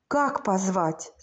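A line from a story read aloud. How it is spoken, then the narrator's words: Whispered, near tears. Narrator (Russian): спросил Сережа шепотом, потому что хотелось заплакать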